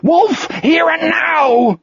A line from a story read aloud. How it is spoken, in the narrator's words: He screamed